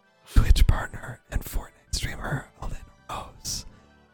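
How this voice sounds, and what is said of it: Very quiet ASMR whisper. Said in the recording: “I'm actually having trouble hearing you. I have to go back to normal voice.”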